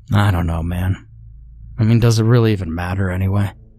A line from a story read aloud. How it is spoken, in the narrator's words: said flatly